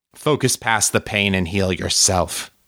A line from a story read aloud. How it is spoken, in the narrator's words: father growled